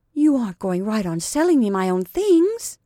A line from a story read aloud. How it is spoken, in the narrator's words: gasped Sarah